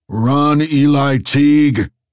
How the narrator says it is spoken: Zero bellowed

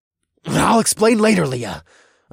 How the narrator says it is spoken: I growled

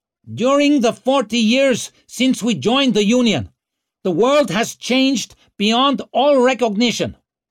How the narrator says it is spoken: bellowed Shudra

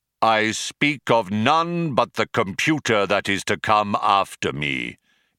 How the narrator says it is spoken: intoned Deep Thought, his voice regaining its accustomed declamatory tones

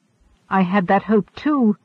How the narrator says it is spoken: Fiera cried

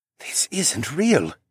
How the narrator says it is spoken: he muttered

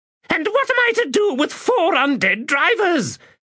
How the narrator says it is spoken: Sirik shrieked

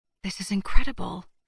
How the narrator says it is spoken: murmured

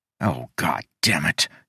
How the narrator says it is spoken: he muttered

